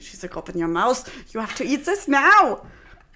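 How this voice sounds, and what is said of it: Put-on German accent. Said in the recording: “your German accent?”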